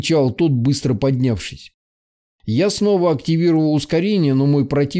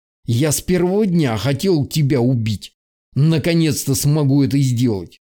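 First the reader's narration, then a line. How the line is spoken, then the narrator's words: Vicious snarling. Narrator (Russian): злобно оскалившись, произнес он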